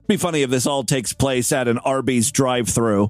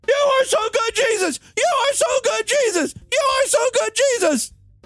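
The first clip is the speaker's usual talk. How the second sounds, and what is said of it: Screaming. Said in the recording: “She's screaming into the box.”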